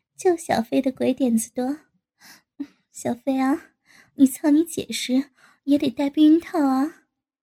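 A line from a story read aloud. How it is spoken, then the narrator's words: Laughing. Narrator (Chinese): 高志新在下面笑道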